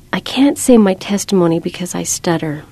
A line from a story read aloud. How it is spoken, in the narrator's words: blurted out